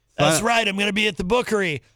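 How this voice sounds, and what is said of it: Imitates another person's voice. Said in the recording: “my impression of Gonzo's impression of Rob Acevedo ... I do impressions of Gonzo's impressions of people”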